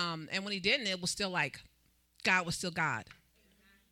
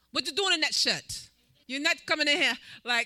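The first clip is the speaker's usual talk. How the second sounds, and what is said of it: Imitates another person's accent. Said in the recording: “I got to say it in his accent.”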